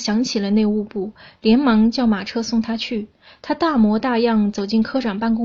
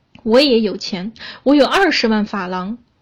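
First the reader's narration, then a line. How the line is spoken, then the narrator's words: Contemptuous, urge to shout. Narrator (Chinese): 他带着几分轻蔑的神气，恨不得向行人喊叫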